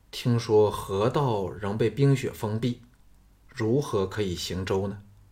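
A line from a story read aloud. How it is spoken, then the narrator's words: Plain. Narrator (Chinese): 龙阳君道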